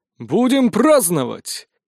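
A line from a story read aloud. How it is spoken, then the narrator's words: Exclaimed. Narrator (Russian): воскликнул Прутковский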